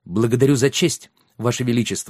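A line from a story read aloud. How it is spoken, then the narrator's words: Plain. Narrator (Russian): сказал Йен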